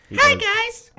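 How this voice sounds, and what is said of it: Elmo character voice impression. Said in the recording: “he does an amazing Elmo impression.”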